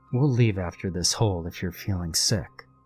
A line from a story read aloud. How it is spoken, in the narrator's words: He leaned in close and whispered in Tyler's ear